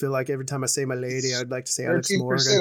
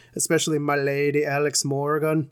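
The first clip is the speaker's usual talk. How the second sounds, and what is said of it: Put-on Irish accent. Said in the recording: “I don't know why I say that with an Irish accent.”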